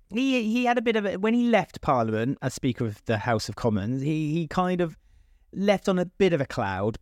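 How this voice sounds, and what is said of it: British accent. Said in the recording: “as a British person, as you may have noticed by the accent”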